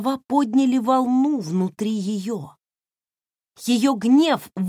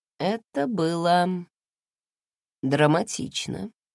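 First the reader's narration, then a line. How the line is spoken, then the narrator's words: Sighing. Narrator (Russian): вздохнул он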